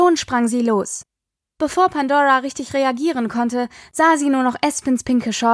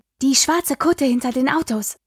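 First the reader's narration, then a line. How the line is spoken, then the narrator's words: Hissed. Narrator (German): zischte Espen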